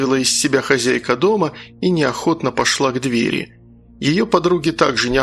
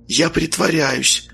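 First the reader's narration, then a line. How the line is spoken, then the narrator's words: Whisper. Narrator (Russian): шепотом сказал он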